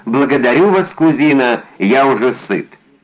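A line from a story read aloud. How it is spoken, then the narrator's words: Loud. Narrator (Russian): громко добавил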